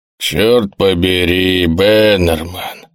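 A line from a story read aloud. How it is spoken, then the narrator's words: Grumbling colonel. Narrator (Russian): проворчал полковник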